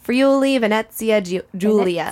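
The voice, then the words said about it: Put-on Italian accent. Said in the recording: “I love speaking with an Italian accent.”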